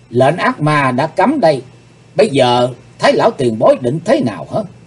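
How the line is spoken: Stern question. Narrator (Vietnamese): Hắc Phụng Hoàng nghiêm giọng hỏi

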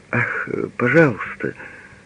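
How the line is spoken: Weak calling voice. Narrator (Russian): зовет слабым голосом

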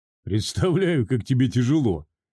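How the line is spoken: Smirking snort. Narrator (Russian): хмыкнул подвинувшийся ближе Штыпя

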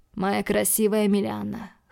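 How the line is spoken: Snorted to himself. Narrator (Russian): хмыкнул про себя

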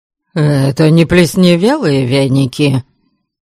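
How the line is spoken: Offended snort. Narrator (Russian): Оскорбленно фыркнула Бальд

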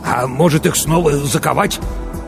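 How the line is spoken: Angry smirk. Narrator (Russian): Матвей зло усмехнулся

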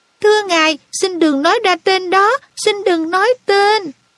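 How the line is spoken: Whimpering, pleading. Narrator (Vietnamese): Dobby rên rỉ

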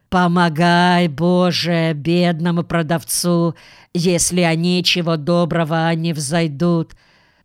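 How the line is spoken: Grumbling. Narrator (Russian): проворчала она

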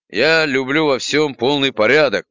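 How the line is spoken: Grumbling. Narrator (Russian): пробурчал

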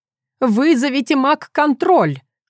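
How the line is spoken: Old woman shouting after. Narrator (Russian): крикнула им вслед бабушка

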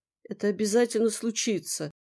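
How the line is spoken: Calm. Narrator (Russian): спокойно сказала она

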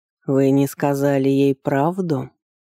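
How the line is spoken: Menacing monster question. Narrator (Russian): грозно спросила чудовище

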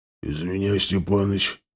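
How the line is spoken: Hoarse rasp. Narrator (Russian): прохрипел один из них

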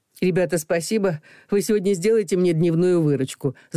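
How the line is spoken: Laughing. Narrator (Russian): засмеялась Людмила

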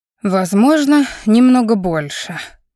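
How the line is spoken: Tired sigh. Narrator (Russian): устало вздохнул барон

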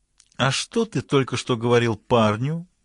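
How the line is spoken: Snide little voice. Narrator (Russian): ехидным голоском поинтересовался Уайли

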